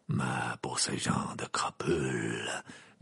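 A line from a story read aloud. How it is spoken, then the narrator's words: Murmuring. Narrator (French): murmura Maugrey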